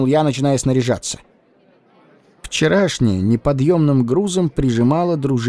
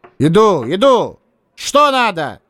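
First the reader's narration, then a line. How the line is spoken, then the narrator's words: Shouted. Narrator (Russian): крикнул я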